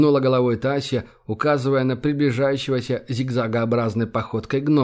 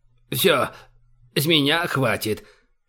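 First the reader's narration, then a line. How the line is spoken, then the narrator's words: Hoarse yelling bearded man. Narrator (Russian): сипло проорал бородатый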